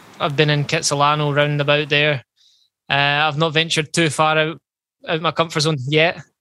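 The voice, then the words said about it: Speaks with a distinctive accent. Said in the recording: “Love just listening to him talk. You could read the phone book. I just love that accent”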